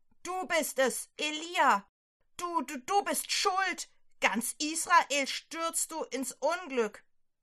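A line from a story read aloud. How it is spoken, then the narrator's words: Shouted. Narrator (German): schreit er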